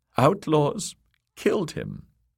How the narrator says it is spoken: sobbed Lady Amory

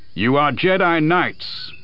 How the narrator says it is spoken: Master Windu's voice boomed out

